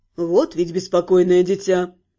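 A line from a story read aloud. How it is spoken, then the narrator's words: Good-natured grumble, abbess. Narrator (Russian): благодушно проворчала настоятельница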